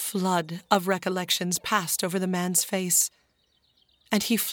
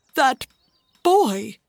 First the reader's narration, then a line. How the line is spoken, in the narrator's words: he exclaimed